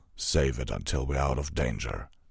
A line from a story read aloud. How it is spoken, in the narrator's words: Vanguard grunted